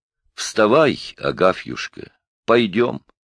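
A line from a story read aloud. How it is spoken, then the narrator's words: Plain. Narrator (Russian): сказала Домника Григорьевна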